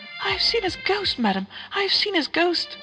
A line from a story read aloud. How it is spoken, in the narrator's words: at length she exclaimed